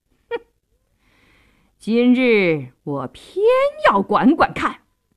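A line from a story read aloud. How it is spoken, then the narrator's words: Defiant sneer. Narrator (Chinese): 杜世清一点也不示弱，冷笑一声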